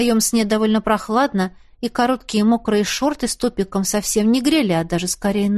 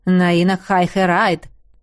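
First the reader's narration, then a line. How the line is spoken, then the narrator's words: Plain. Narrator (Russian): сказал эльф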